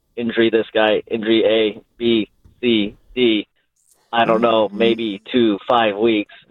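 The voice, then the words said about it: Kyle Shanahan impression. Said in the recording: “That's a three for your Shanahan... It's a good impression”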